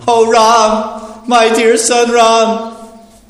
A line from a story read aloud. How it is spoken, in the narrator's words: Lamenting in grief for the death of her husband, Renuka cried loudly